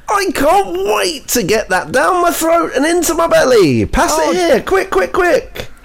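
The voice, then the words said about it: Mr. Tumble impression. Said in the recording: “that accent. ... why are you doing impressions of Mr. Tumble? ... Big Mr. Tumble energy”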